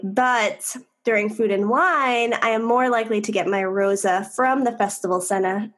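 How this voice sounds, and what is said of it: New York Long Island accent. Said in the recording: “That New York accent just... Long Island”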